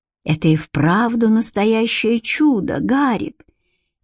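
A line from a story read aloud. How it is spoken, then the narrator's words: Quiet woman. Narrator (Russian): тихо сказала Элоиза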